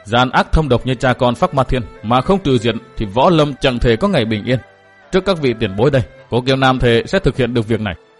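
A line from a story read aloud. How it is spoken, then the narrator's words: Seething resentful. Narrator (Vietnamese): tức tối không giản được, hậm hực nói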